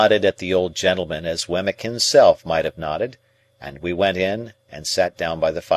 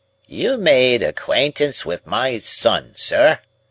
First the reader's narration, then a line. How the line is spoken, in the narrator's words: said the old man in his chirping way